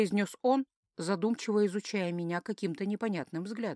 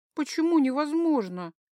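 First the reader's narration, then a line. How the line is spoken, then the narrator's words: Slightly offended question. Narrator (Russian): Как-то даже немного обиженно уточнила я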